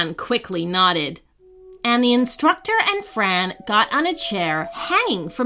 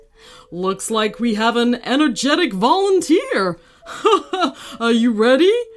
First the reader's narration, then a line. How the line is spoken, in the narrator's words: the instructor remarked after chuckling